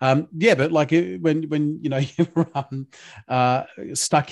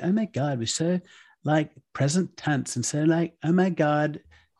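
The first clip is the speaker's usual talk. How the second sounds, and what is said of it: Poor imitation of a teenage girl. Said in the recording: “that's a terrible, terrible impression of my teenage daughter”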